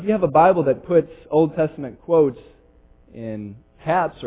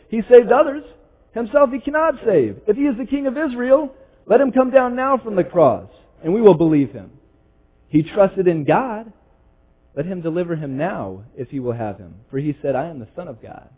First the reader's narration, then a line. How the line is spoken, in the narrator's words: the chief priests also, mocking with the scribes and elders, said